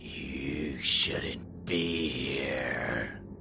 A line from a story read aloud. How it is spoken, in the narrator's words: she hissed